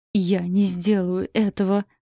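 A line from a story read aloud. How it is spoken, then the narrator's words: Weak hoarse rasp. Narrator (Russian): прохрипела, чувствуя, что слишком стала слаба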